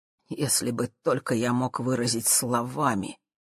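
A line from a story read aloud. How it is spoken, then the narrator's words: Quiet. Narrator (Russian): тихо проговорил он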